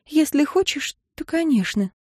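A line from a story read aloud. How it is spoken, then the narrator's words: Sighing near whisper. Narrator (Russian): Виктория лишь вздохнула и почти прошептала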